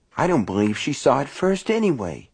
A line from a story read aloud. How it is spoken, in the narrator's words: Myra said in a small, sulky voice